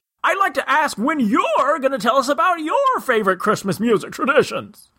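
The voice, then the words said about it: Fading George Bailey impression. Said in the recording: “that impression disintegrates the longer I talk... That's the actual accurate impression I can do of George Bailey”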